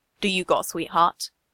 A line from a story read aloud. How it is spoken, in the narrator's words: Steve sighs